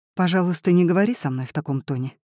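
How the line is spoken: Quiet. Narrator (Russian): тихо произносит она

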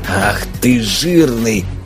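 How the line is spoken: Hoarse wheeze. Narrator (Russian): прохрипел Никита

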